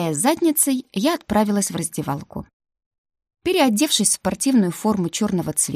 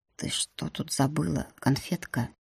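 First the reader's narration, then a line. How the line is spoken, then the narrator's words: Whisper in the ear. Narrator (Russian): шепнул на ухо принц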